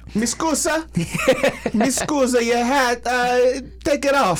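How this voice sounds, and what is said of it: Put-on Italian-style accent. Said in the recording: “I don't even know what a Greek accent is... I just assumed it. I just went Italian.”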